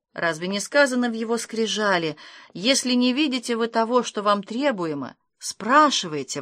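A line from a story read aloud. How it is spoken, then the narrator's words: Exclaiming. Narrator (Russian): воскликнул Гердер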